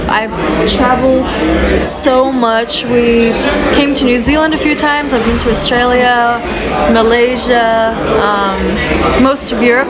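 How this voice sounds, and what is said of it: Mixed accent from many places. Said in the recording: “my accent, because it's so all over the place ... I've just picked up all of his twangs”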